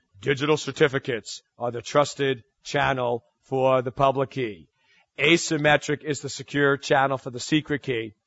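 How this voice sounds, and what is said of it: New York accent. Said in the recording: “this annoying New York accent”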